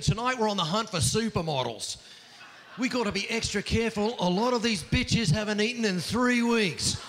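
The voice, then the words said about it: Put-on Australian accent. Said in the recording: “a guy in khakis with an Australian accent.”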